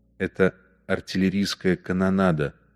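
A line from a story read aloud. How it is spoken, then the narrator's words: Very quiet. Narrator (Russian): Он сказал все еще очень тихим голосом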